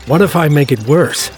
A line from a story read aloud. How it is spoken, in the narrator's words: shouted above the din